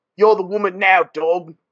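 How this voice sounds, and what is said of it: Jason Statham accent impression. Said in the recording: “You gotta do just the Statham accent”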